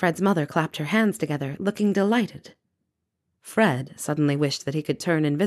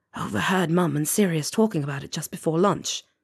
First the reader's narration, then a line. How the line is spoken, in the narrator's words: Fred whispered back